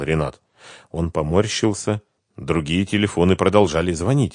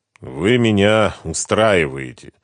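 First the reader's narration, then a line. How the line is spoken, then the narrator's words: Tired confirmation. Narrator (Russian): устало подтвердил Ренат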